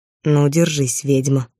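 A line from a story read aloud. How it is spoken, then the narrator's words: Hoarse voice. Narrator (Russian): хриплое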